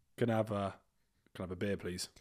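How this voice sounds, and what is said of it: English accent. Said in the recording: “is that an English accent? ... your accent is so cute”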